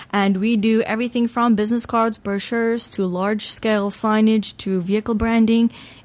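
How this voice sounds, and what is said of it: Accent not South African. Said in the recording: “Your accent says that you're not really from South Africa.”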